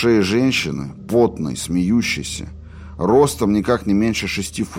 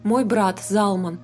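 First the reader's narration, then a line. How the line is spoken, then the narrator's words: Very dry introduction. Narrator (Russian): очень сухо представил Залия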